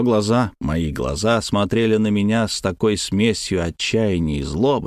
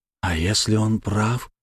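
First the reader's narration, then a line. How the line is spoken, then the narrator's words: Whispered. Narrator (Russian): прошептал я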